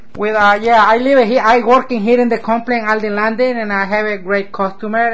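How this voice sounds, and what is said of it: Central American Spanish accent. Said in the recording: “my accent. Maybe, I don't know, maybe change it, maybe not. But I love it, you know, Central America”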